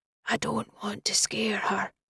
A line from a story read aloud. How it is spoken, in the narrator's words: he whispered